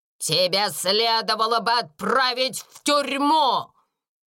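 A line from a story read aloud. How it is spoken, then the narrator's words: Shouted. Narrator (Russian): крикнула мисс Минчин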